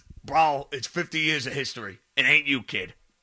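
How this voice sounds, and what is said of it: Imitates another person's voice, poorly. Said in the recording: “that was a terrible jail impression”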